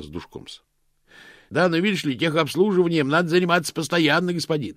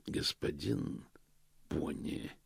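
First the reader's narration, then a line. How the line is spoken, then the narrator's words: Quiet. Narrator (Russian): тихо сказал Позолот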